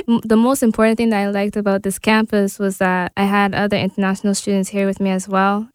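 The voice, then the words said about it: Noticeable foreign accent. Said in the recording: “it was hard for people to understand my accent.”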